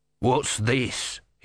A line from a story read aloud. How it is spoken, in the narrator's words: he snarled